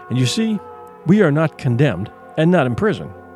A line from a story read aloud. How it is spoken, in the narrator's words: he said softly